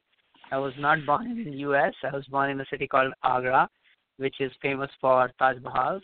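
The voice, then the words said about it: Indian-accented English. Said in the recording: “my sound, my accent doesn't sound like you, Courtney... my accent is different... I was born in India”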